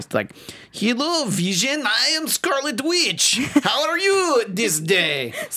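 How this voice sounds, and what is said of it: Scarlet Witch accent impression. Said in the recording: “that stupid accent... Spot on, by the way”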